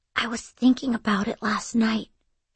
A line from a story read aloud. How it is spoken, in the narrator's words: whispered